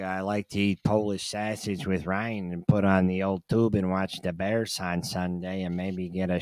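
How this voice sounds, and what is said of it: Animated put-on Chicago accent. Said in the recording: “You been practicing the Chicago accent? ... Very animated.”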